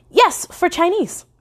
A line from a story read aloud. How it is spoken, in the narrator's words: exclaimed